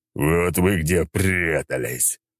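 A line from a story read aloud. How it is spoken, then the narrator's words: Angry monster growl. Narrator (Russian): прорычал монстр, сверкнув красными от гнева глазами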